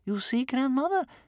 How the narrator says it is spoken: said Bear Cub excitedly

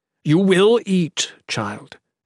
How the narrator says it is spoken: Ethrys said firmly

